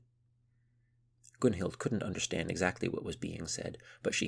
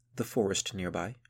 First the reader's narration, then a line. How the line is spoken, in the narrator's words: said Madwin